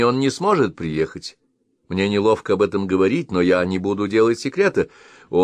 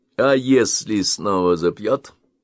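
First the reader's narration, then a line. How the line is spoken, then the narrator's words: Gloomy question. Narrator (Russian): мрачно вопрошал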